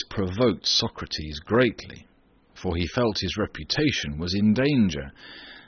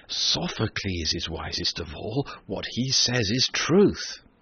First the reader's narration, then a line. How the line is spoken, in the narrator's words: the people, who had listened eagerly, murmured